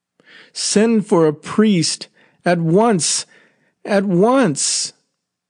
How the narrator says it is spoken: Vardalek cried suddenly, almost fiercely

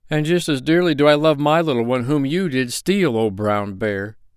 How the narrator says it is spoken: the peasant cried

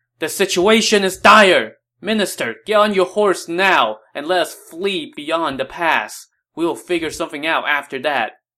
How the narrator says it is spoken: Sensing that all is lost, he yelled out to Wang Yun

